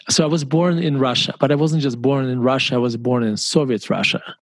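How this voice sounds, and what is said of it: Slight Russian accent. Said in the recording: “my tiny little accent”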